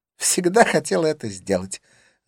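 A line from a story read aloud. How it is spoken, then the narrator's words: Joyful. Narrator (Russian): заявила она радостно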